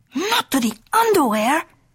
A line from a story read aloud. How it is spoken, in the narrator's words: exclaimed Skippito